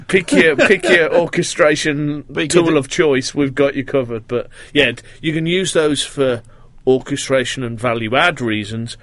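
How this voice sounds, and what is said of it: Brooklyn accent. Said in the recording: “the Brooklyn accent that you have... It's a giveaway”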